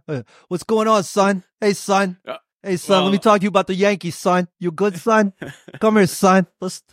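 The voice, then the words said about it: Imitated New Yorker voice. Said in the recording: “Are you a New Yorker who says son all the time?”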